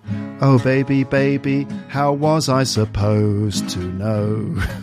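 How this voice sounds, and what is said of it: Sings in the speaker's accent. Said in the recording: “now, in my accent.”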